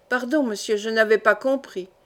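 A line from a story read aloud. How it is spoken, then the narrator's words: Grumbling coachman. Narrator (French): grommela le cocher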